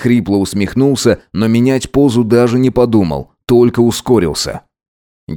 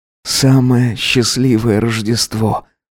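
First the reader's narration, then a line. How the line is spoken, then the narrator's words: Hoarse whisper. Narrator (Russian): прошептал он хрипло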